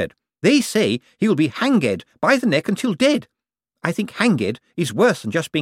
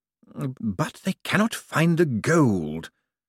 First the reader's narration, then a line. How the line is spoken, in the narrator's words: whispered Malvolio Bent